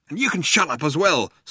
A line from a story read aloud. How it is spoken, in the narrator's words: snapped Ford